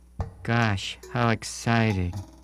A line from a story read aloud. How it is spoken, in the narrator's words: said Peter in a very unexcited voice